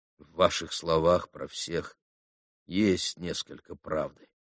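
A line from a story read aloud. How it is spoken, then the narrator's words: Quiet speech. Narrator (Russian): проговорил тихо Алеша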